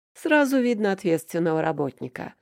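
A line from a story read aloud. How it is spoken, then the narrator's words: Smirking grunt. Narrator (Russian): хмыкнул Аверин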